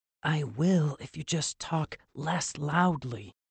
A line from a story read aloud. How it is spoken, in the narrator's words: he murmured